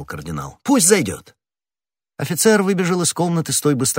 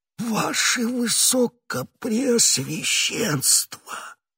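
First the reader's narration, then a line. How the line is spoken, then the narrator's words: Terrified whisper. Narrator (Russian): прошептал Бонасье, в ужасе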